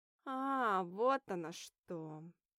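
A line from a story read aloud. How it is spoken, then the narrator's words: Knowing drawl. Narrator (Russian): Понимающе протянула Ника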